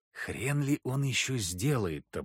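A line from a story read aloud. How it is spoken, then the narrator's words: Grumbled mutter. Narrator (Russian): буркнул я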